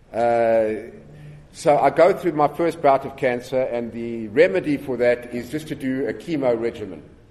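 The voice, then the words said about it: South African accent. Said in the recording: “where's this accent from? You know, is it Australia or whatever? I'm from South Africa.”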